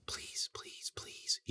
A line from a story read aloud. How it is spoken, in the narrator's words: he whispered